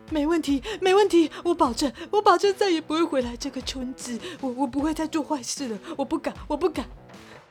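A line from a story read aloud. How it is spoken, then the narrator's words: Crying answer. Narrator (Chinese): 基德边哭边回答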